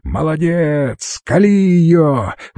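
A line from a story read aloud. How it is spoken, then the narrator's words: Excited crowd shouting. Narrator (Russian): возбужденно закричали вокруг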